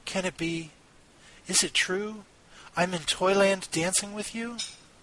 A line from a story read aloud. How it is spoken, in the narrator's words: Marie whispered to Nutcracker